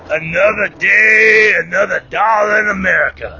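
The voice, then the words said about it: Gravelly imitated man's voice. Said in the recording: “my best impersonation of his gravelly voice”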